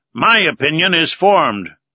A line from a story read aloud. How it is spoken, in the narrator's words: replied Ned Land sharply